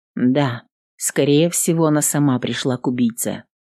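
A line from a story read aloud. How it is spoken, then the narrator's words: Quiet. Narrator (Russian): негромко проговорила воительница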